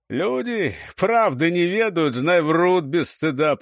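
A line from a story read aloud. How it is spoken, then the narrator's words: Gloomy droning voice. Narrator (Russian): прогудел хмурый гуляй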